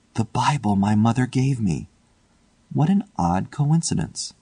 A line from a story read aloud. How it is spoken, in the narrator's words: shivered slightly as he murmured to himself